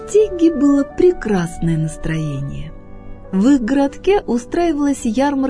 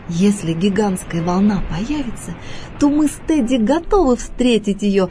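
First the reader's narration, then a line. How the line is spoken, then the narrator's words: Laughing reply. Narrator (Russian): смеясь ответила она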